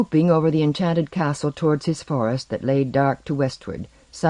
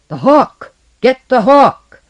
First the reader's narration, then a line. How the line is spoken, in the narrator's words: The troll bellowed in a vast, stony voice